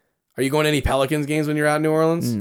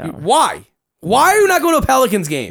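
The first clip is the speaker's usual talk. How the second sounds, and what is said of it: Angry yelling. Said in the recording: “Why are you yelling at me? ... Because I'm angry at you.”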